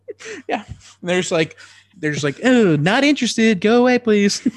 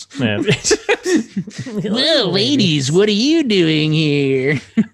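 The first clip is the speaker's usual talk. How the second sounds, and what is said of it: Imitates another person's voice. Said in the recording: “I do my Ben Shapiro voice.”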